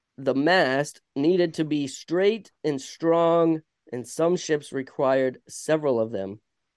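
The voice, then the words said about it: Vermont accent. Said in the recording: “it's so hard to say mast... It's my Vermont accent, I guess.”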